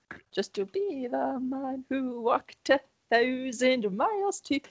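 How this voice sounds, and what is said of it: Well-done put-on singing accent. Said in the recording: “nice accent. You hit. Yeah. You nailed that.”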